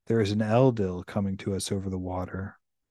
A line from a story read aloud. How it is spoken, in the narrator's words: Hyoy spoke softly to him and said, without taking his eyes off the current